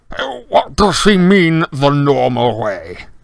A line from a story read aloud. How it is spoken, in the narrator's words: He spat